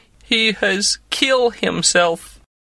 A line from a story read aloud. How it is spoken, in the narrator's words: said mournfully